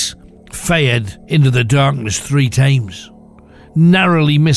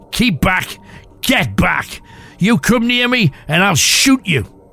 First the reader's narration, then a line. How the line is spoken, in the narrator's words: shouted